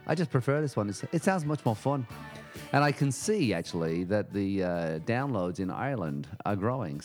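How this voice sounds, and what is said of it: Put-on Irish accent. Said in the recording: “I'm going to switch my accent right now. It's hard to do. People can say, why do you keep doing it in an Irish accent?”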